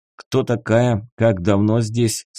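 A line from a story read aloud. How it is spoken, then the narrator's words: Plain. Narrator (Russian): спросил Седой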